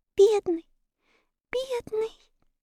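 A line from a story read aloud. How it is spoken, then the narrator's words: Whispered through tears. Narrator (Russian): прошептала Энни сквозь слезы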